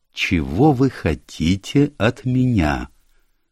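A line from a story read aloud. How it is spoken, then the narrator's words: Slow speech. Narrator (Russian): Она медленно произнесла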